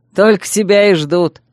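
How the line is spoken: Short laugh. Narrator (Russian): хохотнул его напарник

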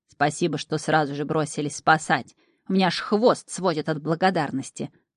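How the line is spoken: Grumbling. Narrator (Russian): бурчал Шнырь

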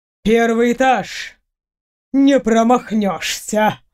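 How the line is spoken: Laughing reply. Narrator (Russian): С хохотом отозвался хранитель

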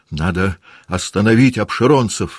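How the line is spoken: Shouted. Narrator (Russian): закричал он

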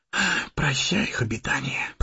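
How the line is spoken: Whisper. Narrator (Russian): прошептал Сэмми

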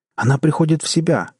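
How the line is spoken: Joyful exclamation. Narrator (Russian): радостно воскликнул Джек

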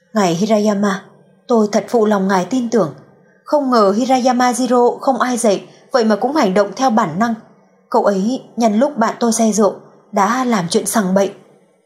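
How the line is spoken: Sighing, resigned. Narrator (Vietnamese): Cố Hề Hề thở dài, bất đắc dĩ nói

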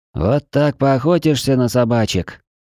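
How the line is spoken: Groaning. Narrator (Russian): простонала сумрачная

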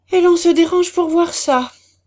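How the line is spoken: Exclaimed. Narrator (French): s'écria M

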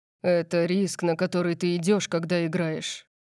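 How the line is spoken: Gloomy. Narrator (Russian): мрачно сказал Орион

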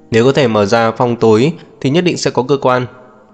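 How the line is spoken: Irritated. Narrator (Vietnamese): Kiều Vân Tiêu bực bội nói

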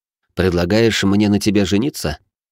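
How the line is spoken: Calm questioning. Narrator (Russian): спокойно уточнил

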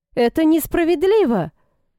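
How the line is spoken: Exclaiming. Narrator (Russian): воскликнул Эдвард

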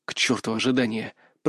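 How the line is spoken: Determined hiss. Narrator (Russian): прошипел я, собрав волю в кулак

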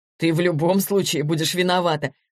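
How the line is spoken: Laughing. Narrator (Russian): засмеялся Денис

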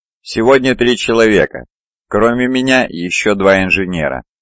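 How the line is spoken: Plain. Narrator (Russian): ответил Кип

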